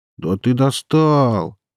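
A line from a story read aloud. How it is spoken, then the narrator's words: Weary drawl. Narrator (Russian): утомленным голосом снова протянул вокалист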